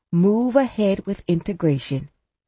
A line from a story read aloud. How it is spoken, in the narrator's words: Davies had said